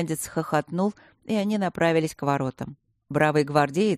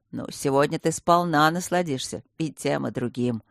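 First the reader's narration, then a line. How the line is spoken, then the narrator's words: Wry snort. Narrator (Russian): хмыкнул полковник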